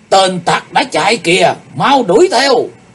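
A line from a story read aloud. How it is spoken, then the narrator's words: Loud shout in unison. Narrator (Vietnamese): bọn cao thủ Bách Linh Hội đồng thanh quát lớn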